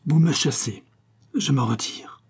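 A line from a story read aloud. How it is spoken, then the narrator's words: Murmured. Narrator (French): murmura-t-il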